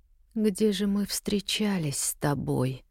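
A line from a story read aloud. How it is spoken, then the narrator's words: Puzzled mutter. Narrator (Russian): пробормотала озадаченно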